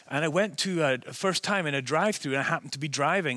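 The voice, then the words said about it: Softened Scottish accent mixed with American. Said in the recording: “I had a much stronger Scottish accent ... I've definitely smoothed things off ... sounds like a Yank ... a person without any kind of accent place that is clear. It's a, kind of a mix now”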